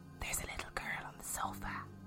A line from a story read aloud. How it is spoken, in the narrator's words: Lil whispered